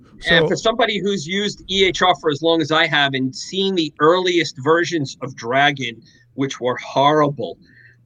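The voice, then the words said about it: Thick Queens New York accent. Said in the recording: “as somebody who comes from Queens, New York, who has a very thick accent”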